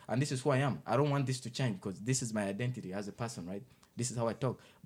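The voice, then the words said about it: Thick foreign accent. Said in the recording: “I have a, you know, a thick accent”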